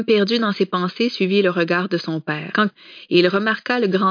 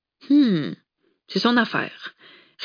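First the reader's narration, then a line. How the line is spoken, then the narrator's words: Curt reply. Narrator (French): répliqua sèchement Tom à son père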